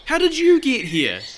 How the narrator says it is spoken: his brothers shouted

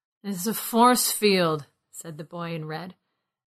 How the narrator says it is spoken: his words slurred

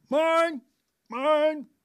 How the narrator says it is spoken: Major Hawker shouting

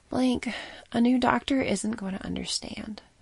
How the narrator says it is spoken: Helen sighed

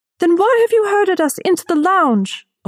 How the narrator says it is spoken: a woman shouted

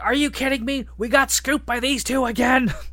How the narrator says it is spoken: She starts yelling

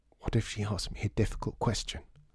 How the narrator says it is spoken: She whispered

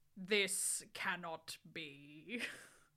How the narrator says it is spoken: Snap said in a crisp voice

